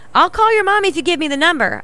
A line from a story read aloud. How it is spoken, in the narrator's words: shouted through the door